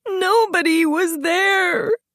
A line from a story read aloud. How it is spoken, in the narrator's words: she moaned